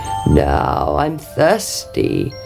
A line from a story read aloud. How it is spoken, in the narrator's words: croaked the frog